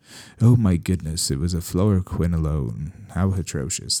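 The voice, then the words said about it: Put-on British accent. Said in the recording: “I defaulted to a British accent there”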